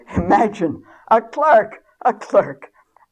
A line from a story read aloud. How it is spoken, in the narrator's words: the king burst out laughing and saying